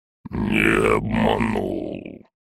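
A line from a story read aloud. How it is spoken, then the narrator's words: Barely audible drawl. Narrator (Russian): Ледяной дракон едва слышно протянул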